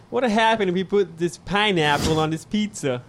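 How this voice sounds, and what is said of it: Put-on Boston accent. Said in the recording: “we're talking about Boston accent? Okay, it'd be”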